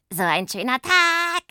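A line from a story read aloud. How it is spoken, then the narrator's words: Sister's croaky voice. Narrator (German): die krächzende Stimme ihrer Schwester Pumpernickel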